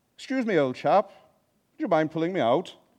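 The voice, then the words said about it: Put-on English accent. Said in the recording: “Sorry about that for the English people doing that accent.”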